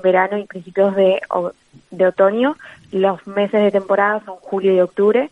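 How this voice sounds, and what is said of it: Argentine Spanish accent. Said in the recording (Spanish): “Algo muy común en Argentina ... con tu acento suponemos que, eres de allí ... De Buenos Aires.”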